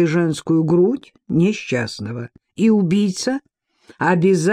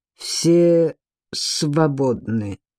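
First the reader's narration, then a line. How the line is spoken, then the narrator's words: Through gritted teeth. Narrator (Russian): процедил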